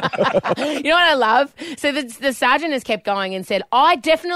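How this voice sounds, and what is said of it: Usual voice. Nothing is said of it.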